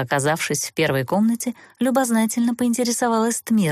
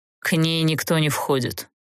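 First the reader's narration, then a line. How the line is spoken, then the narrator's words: Cold, curt. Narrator (Russian): холодно отрезал Олтерн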